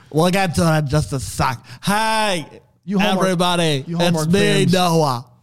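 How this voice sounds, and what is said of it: Imitates another person's voice. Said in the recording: “That's just Will Ferrell's Harry Carey impersonation is all you're doing.”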